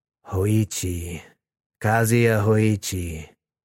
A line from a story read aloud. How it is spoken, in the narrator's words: the voice rumbled